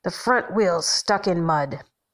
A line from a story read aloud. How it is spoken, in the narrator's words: the man says, in his soft growl